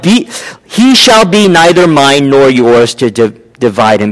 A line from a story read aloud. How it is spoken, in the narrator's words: she yells out